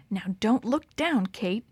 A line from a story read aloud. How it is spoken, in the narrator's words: she whispered